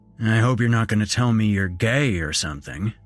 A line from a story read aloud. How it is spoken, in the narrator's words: he said gruffly, a note of humor in his voice